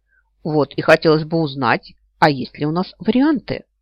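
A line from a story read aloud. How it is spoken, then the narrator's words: Grumbled. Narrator (Russian): проворчала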